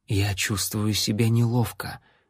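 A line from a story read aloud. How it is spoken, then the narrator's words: Quiet, awkward remark. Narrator (Russian): негромко произнесла Лайла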